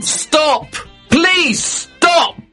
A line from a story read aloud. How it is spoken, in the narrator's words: I shouted